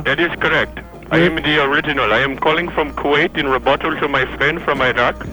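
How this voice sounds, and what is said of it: Indian-sounding accent. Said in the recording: “You have an Indian accent. ... you have an Indian accent.”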